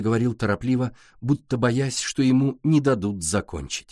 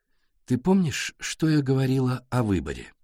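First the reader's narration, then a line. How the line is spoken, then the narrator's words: Deliberately calm, slow. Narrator (Russian): Нарочито спокойно, медленно, на контрасте с его бешеным ритмом, заговорила Сашка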